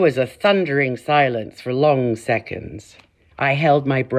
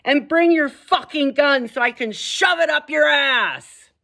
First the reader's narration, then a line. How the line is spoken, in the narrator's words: shrieked back